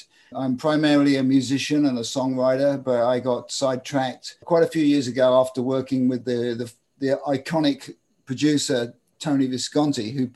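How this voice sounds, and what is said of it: English accent from near London. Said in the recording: “As you can tell by my accent, I'm an English guy who grew up just outside London.”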